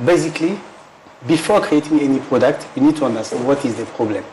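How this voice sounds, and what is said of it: Deep French accent. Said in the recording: “I have a very deep French accent”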